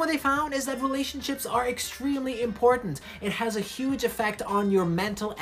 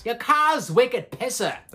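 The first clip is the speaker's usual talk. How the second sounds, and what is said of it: Put-on Boston accent. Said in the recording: “That's what Boston accent sounds like to me.”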